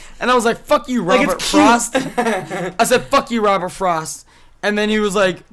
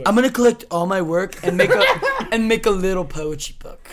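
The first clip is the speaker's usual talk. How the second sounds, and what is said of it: Mocking douchey voice with vocal fry. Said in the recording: “Do the douche voice. ... I like the vocal fry.”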